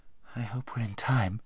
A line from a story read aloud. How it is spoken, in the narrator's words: murmured Hwin